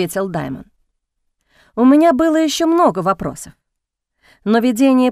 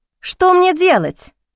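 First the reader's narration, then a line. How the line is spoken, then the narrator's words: Shout. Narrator (Russian): крикнула я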